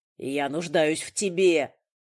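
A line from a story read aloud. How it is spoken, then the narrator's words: Roar. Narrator (Russian): взревел он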